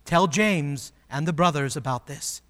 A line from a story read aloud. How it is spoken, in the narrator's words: he said